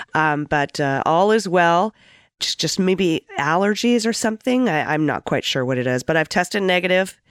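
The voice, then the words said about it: Slightly hoarse, cold-affected voice. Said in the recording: “You sound like a li- you got a little cold or something. ... I'm a little tiny bit under the weather. Might be losing my voice”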